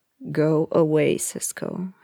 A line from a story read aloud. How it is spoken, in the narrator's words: he said, growled